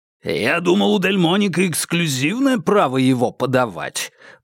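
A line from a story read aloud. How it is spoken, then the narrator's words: Booming. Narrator (Russian): прогремел Рузвельт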